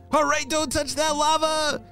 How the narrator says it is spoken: shouted Ben

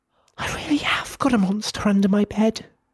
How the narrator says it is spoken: she whispered, her voice quivering

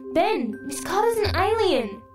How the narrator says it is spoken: screamed Summer and Winter in unison

